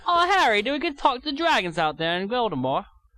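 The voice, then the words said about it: Mixed put-on British accent. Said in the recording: “That's not a bad British accent, man. ... I usually mix, like, four different accents from different continents.”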